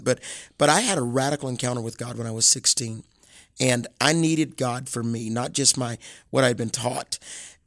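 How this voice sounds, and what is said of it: Southern American accent. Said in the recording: “those of you that are listening can pick up on that Southern accent. Even though I travel the world, I keep that Southern accent.”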